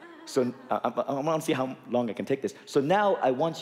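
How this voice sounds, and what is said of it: Usual voice. Nothing is said of it.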